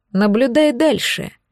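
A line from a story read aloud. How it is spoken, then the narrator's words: Sarcastic, smiling. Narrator (Russian): язвительно улыбнулся Ледбеттер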